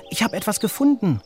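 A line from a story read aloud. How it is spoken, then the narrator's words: Excited shouting. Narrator (German): schreit er aufgeregt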